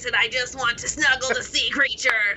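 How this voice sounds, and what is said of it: Nasally character voice. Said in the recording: “she was very much like kind of a nasally voice”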